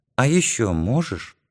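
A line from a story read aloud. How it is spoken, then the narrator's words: Very quiet question. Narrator (Russian): совсем тихо спросил Юрка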